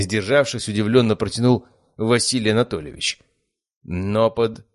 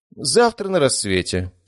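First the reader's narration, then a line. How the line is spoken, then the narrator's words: Calm, unsmiling. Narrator (Russian): спокойно, но уже без улыбки ответил мужчина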